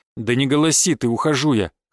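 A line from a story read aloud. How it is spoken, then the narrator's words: Snorting remark. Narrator (Russian): хмыкнул я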